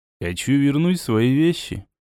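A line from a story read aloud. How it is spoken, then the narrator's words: Calm reply. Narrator (Russian): спокойно ответил я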